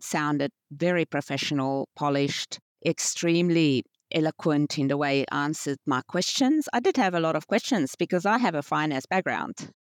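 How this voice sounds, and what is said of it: South African accent. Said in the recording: “I was trained as a chartered accountant in South Africa, as you could hear from the accent”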